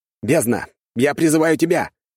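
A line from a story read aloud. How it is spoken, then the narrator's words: Barking shout. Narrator (Russian): рявкнул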